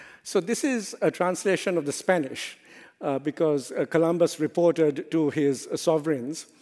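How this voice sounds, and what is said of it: Usual voice. Nothing is said of it.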